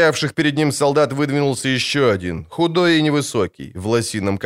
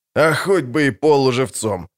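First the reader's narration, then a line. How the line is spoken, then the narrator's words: Loud laughter. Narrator (Russian): захохотал Брик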